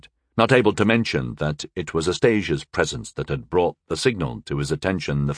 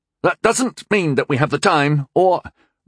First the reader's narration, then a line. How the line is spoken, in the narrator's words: Rundle sputtered